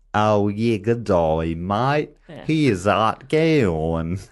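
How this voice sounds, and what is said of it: Exaggerated Australian accent. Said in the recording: “when you hear the Australian accent”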